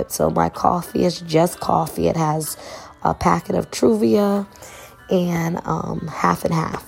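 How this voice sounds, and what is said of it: Hoarse, cracky voice. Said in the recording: “I sound a little hoarse. It is late and my voice is sounding cracky”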